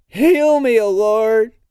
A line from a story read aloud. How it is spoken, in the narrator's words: Kark screams like a scrape against the tunnel of his own voice